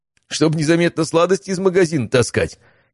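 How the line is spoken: Giggling. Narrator (Russian): хихикнул Матвей

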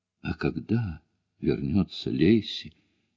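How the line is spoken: Whisper. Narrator (Russian): прошептала Бонни

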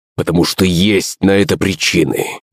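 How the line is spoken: Hiss. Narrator (Russian): прошипел Борис

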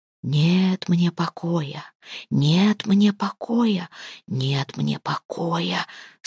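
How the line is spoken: Insistent repeated whisper. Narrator (Russian): Снова и снова шептал голос, словно настаивая, чтобы она поняла

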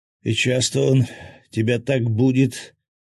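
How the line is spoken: Moaned. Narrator (Russian): простонал с заднего кресла Свят

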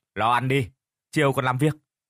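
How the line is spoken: Harsh, stern voice. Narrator (Vietnamese): gã gằn giọng

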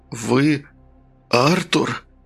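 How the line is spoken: Hoarse croak. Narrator (Russian): прохрипел следователь

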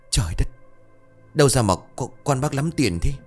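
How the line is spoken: Astonished stammering. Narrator (Vietnamese): Mày thấy số vàng, Kiểm lắp bắp

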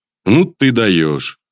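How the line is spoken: Snorting chuckle. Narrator (Russian): хмыкнул

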